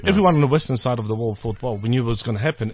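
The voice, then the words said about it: East European accent. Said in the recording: “I do have an East European accent”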